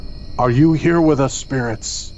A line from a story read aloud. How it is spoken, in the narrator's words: he asked in his most dramatic voice